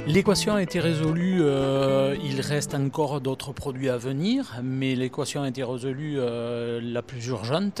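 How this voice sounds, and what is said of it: Sing-song southwestern French accent. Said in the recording (French): “accent qui chante un petit peu, l'accent du sud-ouest”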